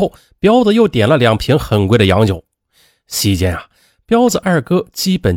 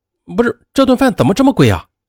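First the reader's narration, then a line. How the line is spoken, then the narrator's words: Hurried question. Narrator (Chinese): 小柯觉得贵，就急忙的问道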